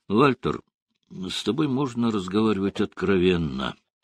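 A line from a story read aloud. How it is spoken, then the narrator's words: Uncertain. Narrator (Russian): неуверенно произнес Буш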